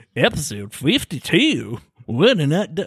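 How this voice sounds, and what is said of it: Poorly done put-on accent. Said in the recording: “That was a really bad accent. ... I'm really bad at accents.”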